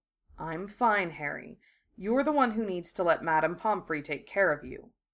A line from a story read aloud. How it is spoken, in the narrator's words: he said softly